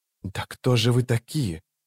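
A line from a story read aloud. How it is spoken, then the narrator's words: Whispered. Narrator (Russian): прошептала она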